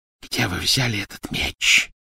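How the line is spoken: Hissing. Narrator (Russian): прошипела она

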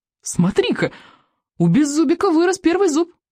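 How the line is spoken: Exclaimed. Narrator (Russian): воскликнул рыбьенок

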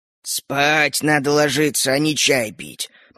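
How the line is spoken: Grumbling old man. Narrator (Russian): проворчал дед

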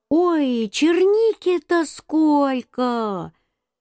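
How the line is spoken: Shouting. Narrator (Russian): Мама закричала

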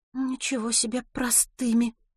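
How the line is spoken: Soft mutter. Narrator (Russian): тихонько пробормотала Милослава

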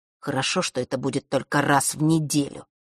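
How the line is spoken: Through gritted teeth. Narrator (Russian): процедил Норт

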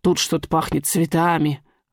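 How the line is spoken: Old man muttering. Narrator (Russian): бормочет старик-смотритель

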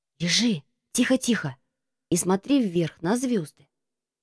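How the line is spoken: Whisper. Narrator (Russian): прошептал Марко

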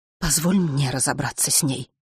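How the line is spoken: Fervent woman's whisper. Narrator (Russian): горячо зашептала женщина

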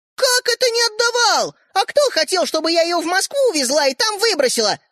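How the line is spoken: Shouted. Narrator (Russian): закричала Ариша

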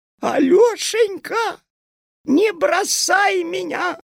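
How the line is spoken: Crying shout. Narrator (Russian): закричала она плачущим голосом

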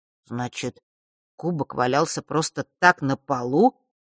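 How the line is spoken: Confused drawl. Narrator (Russian): растерянно протянул Фэш

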